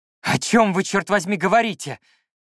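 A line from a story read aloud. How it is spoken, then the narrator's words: Shouted. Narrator (Russian): крикнул я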